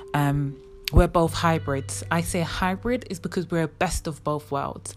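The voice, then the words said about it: English accent. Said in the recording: “if you hear my accent, automatically, no matter where you are in the world, you would think, okay, she is definitely from somewhere in England”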